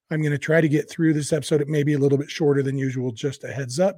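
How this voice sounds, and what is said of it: Weak, not fully recovered voice. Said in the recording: “You can probably tell by listening to me, I'm still not all the way better ... It's still very weak.”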